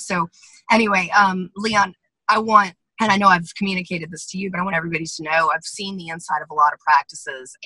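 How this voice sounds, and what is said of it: Strained, nearly lost voice. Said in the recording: “my voice is gone. I don't know why. ... my voice left me this morning”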